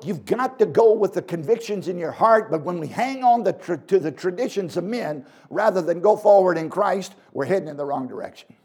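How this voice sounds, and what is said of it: Southern American accent. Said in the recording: “I was born in Virginia. You can probably tell I don't have a Canadian accent, eh? ... down south”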